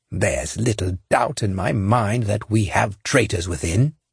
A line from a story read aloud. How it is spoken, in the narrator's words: growled